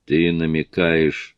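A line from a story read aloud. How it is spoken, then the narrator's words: Grumbled. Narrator (Russian): Сьюзи проворчала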